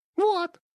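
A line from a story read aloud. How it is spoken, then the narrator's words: Squeaky. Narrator (Russian): пискнула она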